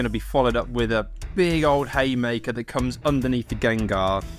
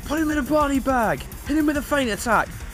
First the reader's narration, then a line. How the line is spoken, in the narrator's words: he shouts